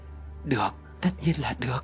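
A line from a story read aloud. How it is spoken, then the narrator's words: Soft smiling. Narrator (Vietnamese): Trinh khẽ mỉm cười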